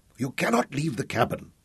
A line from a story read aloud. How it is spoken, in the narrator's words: she grunted